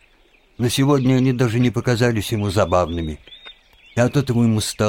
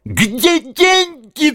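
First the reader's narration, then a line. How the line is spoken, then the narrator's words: Shrieking. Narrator (Russian): взвизгнула она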